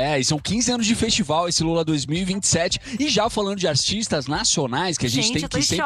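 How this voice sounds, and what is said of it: Usual voice. Nothing is said of it.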